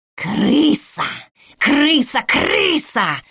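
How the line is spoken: Shrieking old woman. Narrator (Russian): завизжала баба Настя

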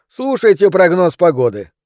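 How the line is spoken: Brisk, cheerful advice. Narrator (Russian): бодро посоветовал я

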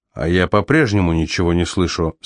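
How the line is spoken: Plain. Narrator (Russian): сказал Тейлор

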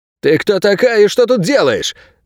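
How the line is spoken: Barking snap. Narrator (Russian): рявкнул Анти

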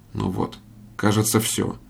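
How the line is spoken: Quiet. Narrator (Russian): тихо проговорил предводитель

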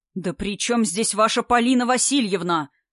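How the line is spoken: Frantic scream, all his strength. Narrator (Russian): истошно закричал мужчина, собрав все силы

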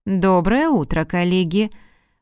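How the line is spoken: Suspiciously bored voice. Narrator (Russian): произнес руководитель подозрительно скучным голосом

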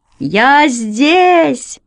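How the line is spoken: Wild joyful shouting. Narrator (Russian): От радости я кричал, как сумасшедший

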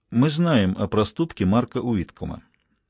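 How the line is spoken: Quiet. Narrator (Russian): Стерлинг негромко произнес

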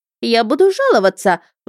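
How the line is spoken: Offended woman's shriek. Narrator (Russian): взвизгнула оскорбленная в лучших чувствах дама

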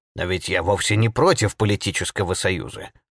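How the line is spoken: Grumbling. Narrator (Russian): проворчал Гидеон Уайз

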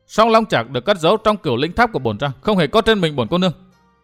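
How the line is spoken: Angry. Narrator (Vietnamese): Mai Ánh Tuyết tức giận nói

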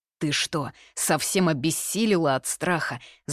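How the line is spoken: Growl. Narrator (Russian): зарычал на нее Юньсяо

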